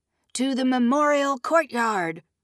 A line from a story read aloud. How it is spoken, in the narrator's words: Moraine shouted